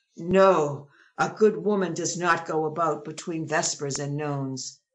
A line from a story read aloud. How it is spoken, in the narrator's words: groaned Nani, thrusting his face in amongst the dried weeds of the ditch